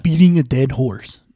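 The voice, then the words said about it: Imitates another person's voice. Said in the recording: “That's my OJ impression.”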